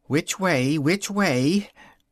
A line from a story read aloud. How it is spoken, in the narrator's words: said anxiously to herself